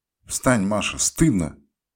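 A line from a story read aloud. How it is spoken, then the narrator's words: Furious shout. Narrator (Russian): закричал я в бешенстве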